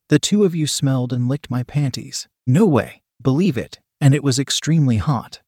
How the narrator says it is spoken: I said

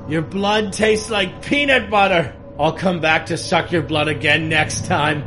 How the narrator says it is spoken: he shouted at me from behind

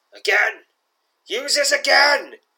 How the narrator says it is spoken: roars the enraged voice, now echoing through your mind

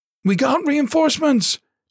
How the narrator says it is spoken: Dixon yelled in excitement

